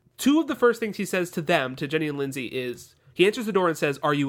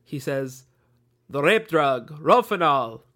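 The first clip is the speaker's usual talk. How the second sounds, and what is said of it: Put-on German Dracula-like accent. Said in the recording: “I'm doing his accent. ... you're doing a Dracula accent, actually ... he sounds a little bit like Zoidberg from Futurama sometimes”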